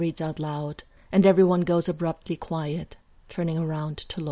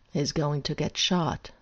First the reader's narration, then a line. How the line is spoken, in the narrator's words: Azazel says flatly